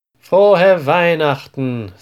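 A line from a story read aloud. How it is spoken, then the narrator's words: Loud, smiling male voice. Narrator (German): sagt er laut mit einem breiten Lächeln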